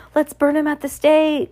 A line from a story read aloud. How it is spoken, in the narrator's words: cried a voice